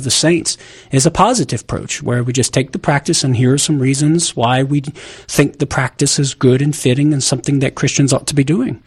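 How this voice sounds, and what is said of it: Southern American accent. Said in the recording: “making fun of my southern accent”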